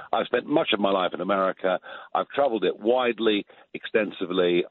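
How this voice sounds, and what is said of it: British accent. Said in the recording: “people talk about my British accent”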